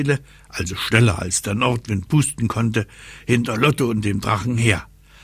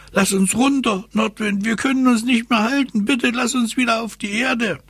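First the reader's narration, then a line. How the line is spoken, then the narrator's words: Calling out. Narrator (German): Lottchen rief ihm zu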